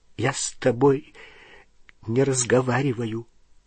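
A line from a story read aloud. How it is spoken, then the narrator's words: Choked voice. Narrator (Russian): сказала она сдавленным голосом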